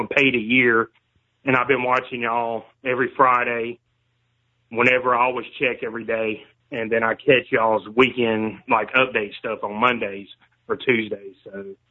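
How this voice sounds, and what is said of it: Faint Southern US accent. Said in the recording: “I love the southern accent too, by the way. ... I was like hearing a southern accent. Seems like it's kind of fading out, unfortunately.”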